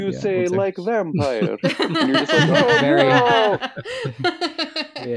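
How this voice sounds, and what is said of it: Usual voice. Nothing is said of it.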